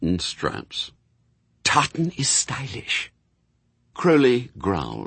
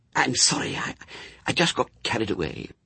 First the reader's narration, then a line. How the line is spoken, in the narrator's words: hissed Aziraphale